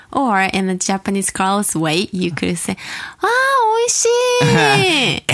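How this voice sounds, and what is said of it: High-pitched voice. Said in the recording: “my voice was too high”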